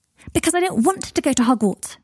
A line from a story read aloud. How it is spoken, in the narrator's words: shouted Scorpius